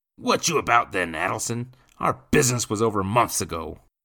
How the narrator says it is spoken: Nathan growled

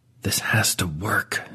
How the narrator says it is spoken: Dewey says, the words coming out in a barely audible hiss

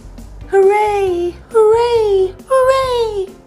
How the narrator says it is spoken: began to shout

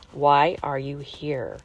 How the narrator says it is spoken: simply asked slowly

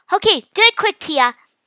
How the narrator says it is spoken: Mia shouted

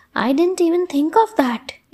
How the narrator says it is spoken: exclaimed Sunaina

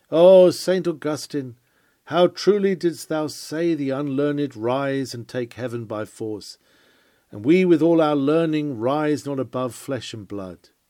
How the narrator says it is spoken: The cardinal fainted as he saw the piety of the peasant, and as he went away he exclaimed

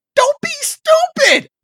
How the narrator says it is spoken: Orin shouts

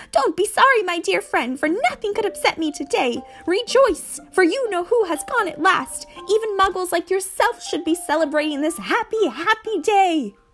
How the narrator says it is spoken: his face split into a wide smile, and he said in a squeaky voice that made passerby stare

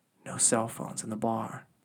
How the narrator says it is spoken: whispered in his ear

